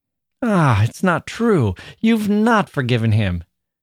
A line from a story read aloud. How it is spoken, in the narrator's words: she wailed with a passion that startled him